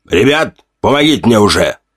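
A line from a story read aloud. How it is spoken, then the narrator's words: Grumbling. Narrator (Russian): ворчал Тортик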